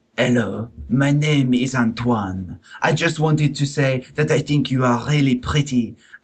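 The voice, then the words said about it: Exaggerated French accent. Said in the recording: “I shall read in exaggerated French accent”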